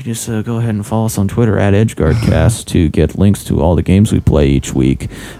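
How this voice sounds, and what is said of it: Radio announcer voice. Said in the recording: “doing my radio voice”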